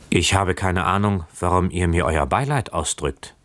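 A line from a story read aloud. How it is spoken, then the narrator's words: Plain. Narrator (German): sagte Keawe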